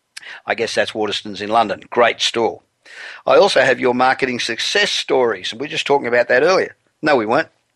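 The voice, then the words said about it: Australian accent. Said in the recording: “I'm originally Australian. I've been living in Los Angeles for 27 years, but the accent does not ever seem to want to go away ... you certainly don't sound American”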